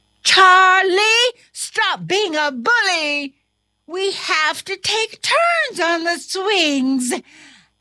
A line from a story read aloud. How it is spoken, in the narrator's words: The other students shouted